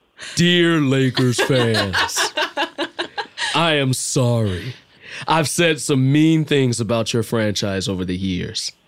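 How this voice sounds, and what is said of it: Imitates another person's voice. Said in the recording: “Should I do it in an Edgar voice?”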